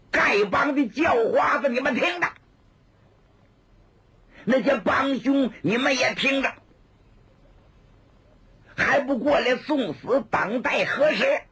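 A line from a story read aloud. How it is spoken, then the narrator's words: Loud shout. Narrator (Chinese): 有人高声喊喝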